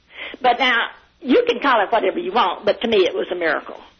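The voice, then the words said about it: Heavy Southern American accent. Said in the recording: “I love your accent ... that Southern accent ... a heavy accent like that”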